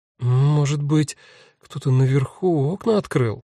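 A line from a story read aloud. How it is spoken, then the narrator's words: Uncertain. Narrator (Russian): неуверенно говорит Нина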